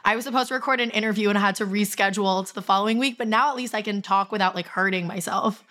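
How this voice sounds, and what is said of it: Hoarse, raspy laryngitis voice. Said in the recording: “I have laryngitis... how bad this episode is going to sound on my voice... I sound like the sexiest and hottest I've literally ever sounded... it was way worse last week”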